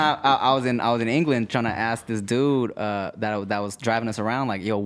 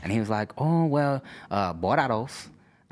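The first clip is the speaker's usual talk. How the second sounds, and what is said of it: Imitates a man's weird accent. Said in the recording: “this dude had, like, a weird accent”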